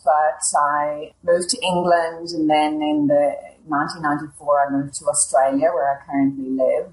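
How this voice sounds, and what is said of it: Irish accent. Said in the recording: “I grew up in Ireland, as you might guess ... from my ... accent”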